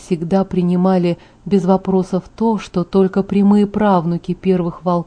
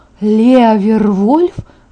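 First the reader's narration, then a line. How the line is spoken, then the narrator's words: Exclamation. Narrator (Russian): воскликнула я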